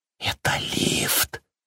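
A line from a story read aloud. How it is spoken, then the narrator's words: Whisper. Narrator (Russian): прошептал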